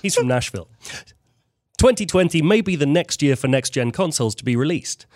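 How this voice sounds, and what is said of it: British accent. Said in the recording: “everything's said better with a British accent, so why don't we have ... read”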